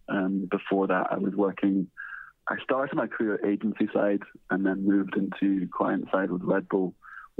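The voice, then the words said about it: Scottish accent. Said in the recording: “you probably guess my accent that I'm not from Australia. I came to Australia from Scotland”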